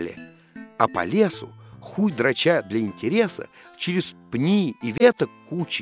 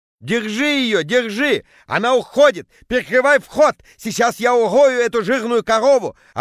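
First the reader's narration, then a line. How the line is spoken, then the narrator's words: Yelling. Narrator (Russian): орал Петя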